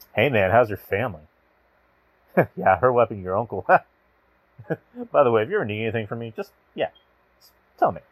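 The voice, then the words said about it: Smug villainous heel-style delivery. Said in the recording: “here's me saying in a heelish way ... Maybe it's not the best impression”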